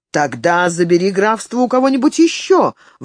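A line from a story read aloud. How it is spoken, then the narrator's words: Exclaiming. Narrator (Russian): воскликнул Уильям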